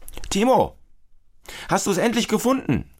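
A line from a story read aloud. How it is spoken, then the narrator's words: Father calling from kitchen. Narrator (German): ruft Papa aus der Küche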